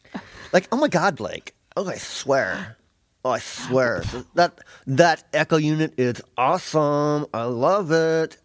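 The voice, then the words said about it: Impression of Kelly Ripa. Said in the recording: “Okay, I'll be Kelly ... I think that's how she talks, something like that”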